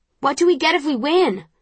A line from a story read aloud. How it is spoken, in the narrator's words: Someone shouts